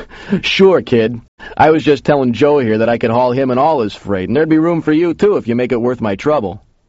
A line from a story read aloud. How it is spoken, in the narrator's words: The big guy laughed and said